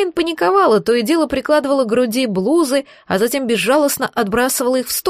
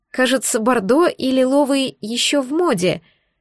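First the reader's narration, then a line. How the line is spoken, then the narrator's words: Uncertain suggestion. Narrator (Russian): неуверенно предположила я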